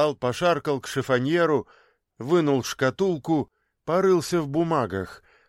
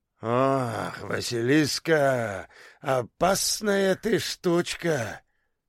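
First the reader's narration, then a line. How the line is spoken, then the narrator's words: Sigh. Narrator (Russian): вздохнул Хасан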